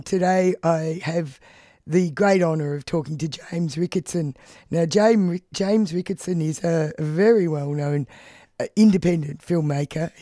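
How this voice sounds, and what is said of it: Strained, unwell-sounding voice. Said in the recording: “my voice is struggling a bit today because I got a lurgy”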